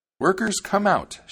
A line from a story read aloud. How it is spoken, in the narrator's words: she cried